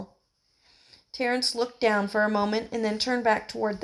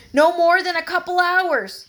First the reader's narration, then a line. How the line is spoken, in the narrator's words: he hollered